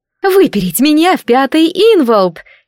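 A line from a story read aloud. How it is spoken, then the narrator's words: Furious female exclamation. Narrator (Russian): яростно воскликнула стихийница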